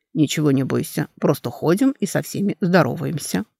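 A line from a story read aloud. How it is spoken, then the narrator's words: Calm. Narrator (Russian): Корей спокойно сказал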